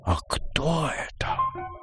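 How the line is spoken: Whispered question. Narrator (Russian): шепотом спросила София

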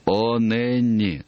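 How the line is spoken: Moaning. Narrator (Russian): застонал он

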